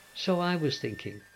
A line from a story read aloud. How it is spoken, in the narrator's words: murmured the rat, dreamful and languid